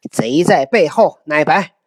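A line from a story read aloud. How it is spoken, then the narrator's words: Angry. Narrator (Chinese): 公怒曰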